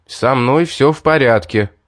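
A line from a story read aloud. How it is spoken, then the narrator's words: Loud. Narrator (Russian): громко сказал я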